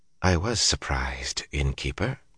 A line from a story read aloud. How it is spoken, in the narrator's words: she said softly